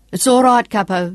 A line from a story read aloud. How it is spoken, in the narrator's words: Sean yelled back